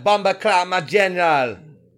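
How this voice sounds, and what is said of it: Put-on Jamaican accent. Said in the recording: “Jamaican accent”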